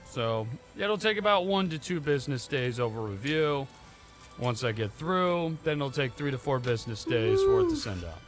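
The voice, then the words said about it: Dejected, defeated-sounding voice. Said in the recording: “You sound so dejected right now. Like, you sound so defeated.”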